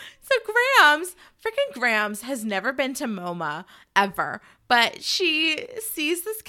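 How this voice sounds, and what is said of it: Usual voice. Nothing is said of it.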